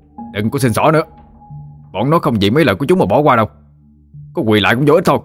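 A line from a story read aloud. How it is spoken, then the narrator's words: Shouting into face. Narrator (Vietnamese): Thụy nói như quát vô mặt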